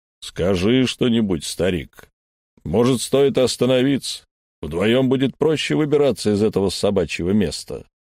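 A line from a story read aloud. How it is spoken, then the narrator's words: Booming drone. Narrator (Russian): прогудел Эльм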